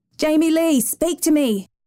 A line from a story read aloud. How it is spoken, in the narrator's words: her father yelled